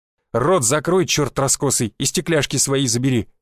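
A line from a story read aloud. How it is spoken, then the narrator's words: Growled. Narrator (Russian): прорычал Александр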